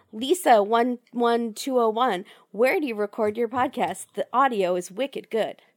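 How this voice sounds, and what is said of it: Scratchy hoarse voice from a cold. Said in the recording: “my voice is still scratchy from the cold”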